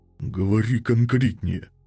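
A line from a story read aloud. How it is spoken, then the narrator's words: Forced out through bleeding mouth. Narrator (Russian): Выдавил он кровоточащим ртом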